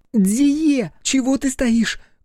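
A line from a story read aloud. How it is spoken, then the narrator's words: Shout. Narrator (Russian): крикнула Игураси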